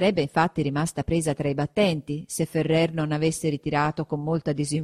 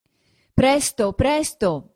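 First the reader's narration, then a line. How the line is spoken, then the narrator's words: Hurried shouting. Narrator (Italian): diceva anche Ferrer di dentro, gridando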